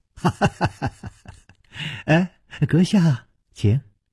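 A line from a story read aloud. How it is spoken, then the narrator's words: Slight smile. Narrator (Chinese): 冷秋魂微微一笑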